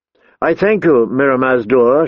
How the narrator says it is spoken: she said

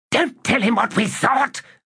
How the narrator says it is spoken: Curdle hissed

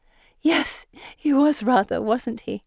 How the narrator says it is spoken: Pippa giggles

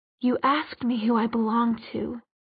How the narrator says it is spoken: whispered

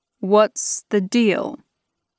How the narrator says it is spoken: I asked, trying to keep my voice steady

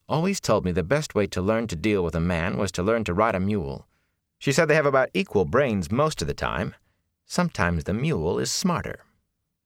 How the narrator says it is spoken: she said firmly

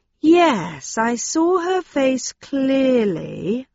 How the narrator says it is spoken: I said slowly

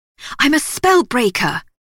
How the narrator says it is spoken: Elsie snapped

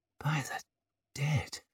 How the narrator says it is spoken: he whispered again

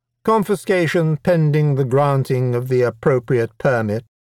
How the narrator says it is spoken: she said smoothly

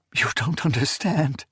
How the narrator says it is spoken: she gasped

